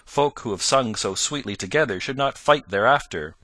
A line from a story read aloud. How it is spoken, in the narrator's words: quoth Robin, with the tears of laughter still in his cheeks